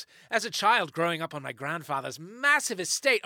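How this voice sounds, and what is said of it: Put-on accent. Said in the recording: “I'm going to bail on this accent early”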